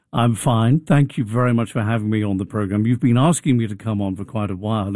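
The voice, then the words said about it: English accent. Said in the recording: “your accent is amazing ... I was born in Portsmouth on the south coast of England”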